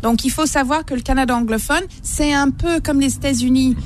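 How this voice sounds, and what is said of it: English Canadian accent in French. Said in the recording (French): “pourquoi vous avez un accent, c'est parce que vous venez du Canada ... Mais pas le Canada québécois, Canada anglophone.”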